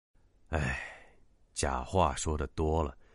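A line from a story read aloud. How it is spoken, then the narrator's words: Soft sigh. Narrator (Chinese): 秦三爷轻叹一口气，说道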